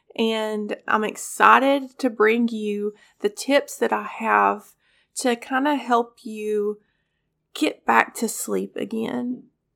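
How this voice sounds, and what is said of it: Congested, scratchy voice. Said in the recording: “apologize for my voice. I am getting over strep and a cold on top of strep ... if my voice sounds a little congested or scratchy”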